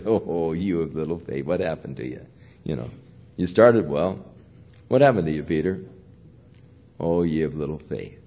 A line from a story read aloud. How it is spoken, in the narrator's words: Jesus chuckle as he said